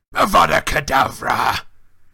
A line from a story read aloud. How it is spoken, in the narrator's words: Moody roared